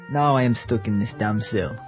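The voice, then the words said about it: Put-on Russian or Arabic accent. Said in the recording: “What was that accent? Was that Russian or Arabic? Anyway, Russian Arabic, I guess.”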